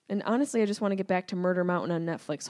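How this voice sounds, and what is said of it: Syracuse accent, nasal voice. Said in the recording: “my Syracuse accent, and my nasally situation”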